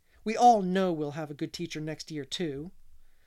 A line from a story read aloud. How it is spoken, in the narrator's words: she added hastily